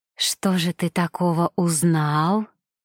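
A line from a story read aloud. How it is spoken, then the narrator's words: Languid whisper. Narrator (Russian): томно прошептала Мишель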